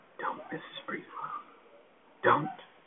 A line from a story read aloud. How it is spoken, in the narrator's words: she was whispering